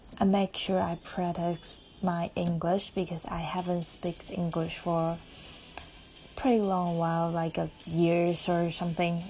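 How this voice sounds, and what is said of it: Non-native English accent. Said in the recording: “thanks you guys not mind my accent or you know, wrong pronounce”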